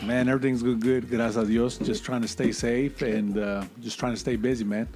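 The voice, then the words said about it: Soft, smooth low voice. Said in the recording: “you have a soft, sexy voice”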